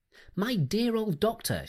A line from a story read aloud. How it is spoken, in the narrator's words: she cried